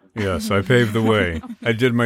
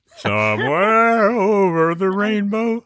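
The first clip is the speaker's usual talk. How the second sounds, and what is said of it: Sung imitation of another person's voice. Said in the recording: “my Judy Garland impression ... Indistinguishable.”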